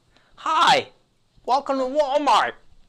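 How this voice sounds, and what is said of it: Cheery customer service voice. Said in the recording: “do your best customer service voice”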